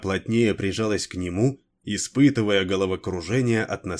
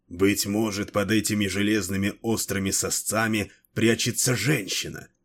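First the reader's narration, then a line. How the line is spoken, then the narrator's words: Hoarse mutter. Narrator (Russian): хрипло пробормотал он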